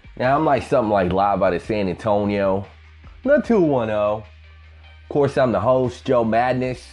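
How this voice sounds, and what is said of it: Southern twang accent. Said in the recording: “that hobo with the southern twang”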